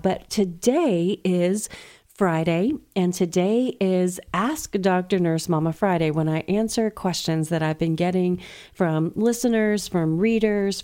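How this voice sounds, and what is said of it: Lower, slightly sick-sounding voice. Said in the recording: “I'm a little under the weather today, so if my voice is sounding a little, I don't know, Karen Carpenter-ish”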